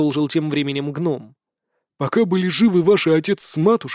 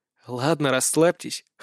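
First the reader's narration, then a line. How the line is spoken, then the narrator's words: Amused snort. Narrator (Russian): хмыкнул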